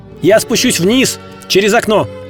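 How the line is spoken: Shouted. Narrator (Russian): крикнул Д'Артаньян

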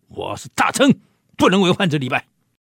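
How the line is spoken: Loud shout. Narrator (Chinese): 高喊

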